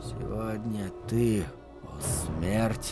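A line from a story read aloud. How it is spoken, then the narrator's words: Barely audible whisper. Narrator (Russian): прошептал он так тихо, что не услышал собственного голоса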